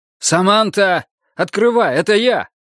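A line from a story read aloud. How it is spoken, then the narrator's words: Man shouting. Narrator (Russian): Пришедший мужчина крикнул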